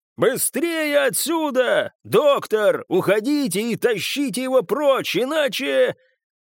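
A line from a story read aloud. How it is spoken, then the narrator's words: Shout. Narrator (Russian): он прокричал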